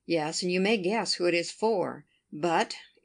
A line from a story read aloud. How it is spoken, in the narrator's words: in a deep tone